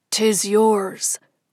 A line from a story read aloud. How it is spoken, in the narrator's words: he said, his voice surprisingly strong